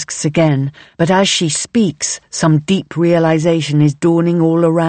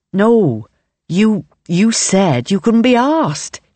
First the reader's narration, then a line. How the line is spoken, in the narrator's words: says with a little laugh